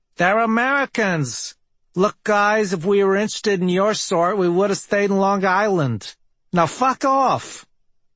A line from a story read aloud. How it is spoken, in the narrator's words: The prettier one says, in a honking New York accent